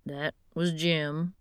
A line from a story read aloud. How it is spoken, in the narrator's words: he said